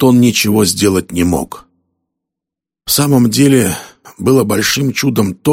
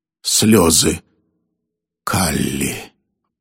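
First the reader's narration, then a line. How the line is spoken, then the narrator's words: Dying man's mumble. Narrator (Russian): пробормотал умирающий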